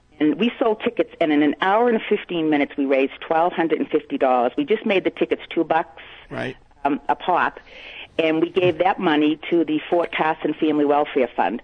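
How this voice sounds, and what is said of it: Thick Boston accent. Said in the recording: “That's a nice thick one. I like that. That's a good Boston accent.”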